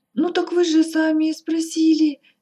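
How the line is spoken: Frightened. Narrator (Russian): испуганно

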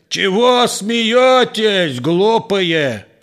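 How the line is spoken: Angry shout. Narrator (Russian): Озлившись неожиданно, дворовый закричал

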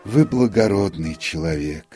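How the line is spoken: Notary sighing. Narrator (Russian): вздохнул нотариус

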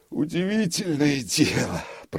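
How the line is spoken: Grumbling. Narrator (Russian): проворчал он

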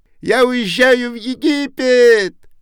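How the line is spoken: Shouting small bird. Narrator (Russian): крикнула ласточка

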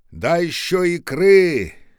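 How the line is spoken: Shouted. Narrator (Russian): крикнул сосед

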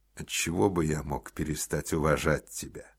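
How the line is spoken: Plain. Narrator (Russian): спросил Гуров

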